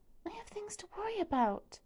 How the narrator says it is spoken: she whispers

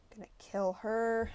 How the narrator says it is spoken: I mumbled

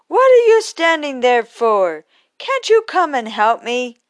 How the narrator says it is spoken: with his flaming eyes, and he cried

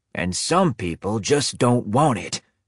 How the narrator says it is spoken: Grandpa growled

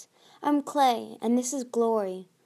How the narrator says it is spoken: Clay answered

